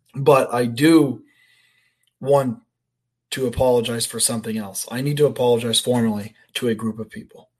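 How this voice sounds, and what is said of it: Hoarse, strained voice. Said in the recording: “for my voice ... I was yelling and screaming like an absolute lunatic ... my voice is a little hoarse still. I had no voice at all on Sunday”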